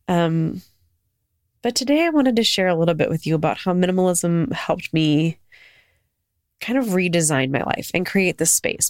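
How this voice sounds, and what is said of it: Sick-sounding voice. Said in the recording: “I've been sick for a week. So if you hear it in my voice”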